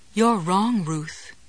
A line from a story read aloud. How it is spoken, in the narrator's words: Goody responded calmly